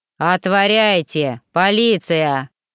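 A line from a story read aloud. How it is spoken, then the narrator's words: Booming bark. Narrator (Russian): зычно гаркнул Гордей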